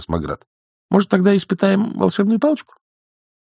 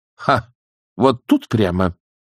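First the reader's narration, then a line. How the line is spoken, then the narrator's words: Snorting old woman. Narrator (Russian): фыркнула матушка Буревей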